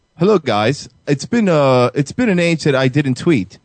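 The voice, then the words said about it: Poor imitation of English accent. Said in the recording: “You're doing the worst English impression ever. Do it better.”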